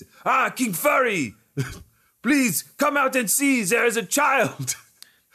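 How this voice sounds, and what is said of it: Exaggerated French accent. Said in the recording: “Now he's French, straight up French accent.”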